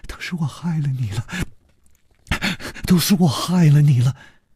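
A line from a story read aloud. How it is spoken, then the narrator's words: Trembling voice. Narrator (Chinese): 他颤声说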